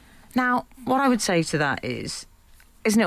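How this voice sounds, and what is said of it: Usual voice. Nothing is said of it.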